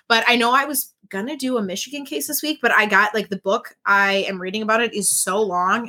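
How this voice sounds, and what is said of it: Slightly nasal, congested voice. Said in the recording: “My voice is back for the most part. Still a little nasally over here.”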